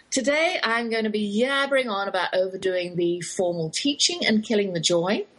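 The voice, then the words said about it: English accent. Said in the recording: “that's my English accent you're hearing”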